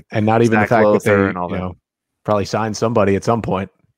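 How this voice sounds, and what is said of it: Polished broadcaster-style radio voice. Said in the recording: “you have a fantastic like radio voice. ... It's perfect for broadcasting.”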